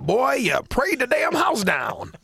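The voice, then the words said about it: George W. Bush impression, Texas accent. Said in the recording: “You got to work on that Texas accent a little bit more.”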